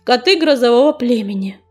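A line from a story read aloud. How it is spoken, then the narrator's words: Beginning, pausing, deep sigh. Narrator (Russian): начал Огнезвезд, потом помолчал и глубоко вздохнул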